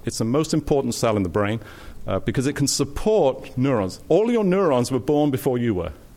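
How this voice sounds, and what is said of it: British accent. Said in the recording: “I have this weird British accent”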